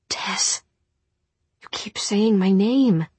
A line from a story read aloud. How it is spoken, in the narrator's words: she murmured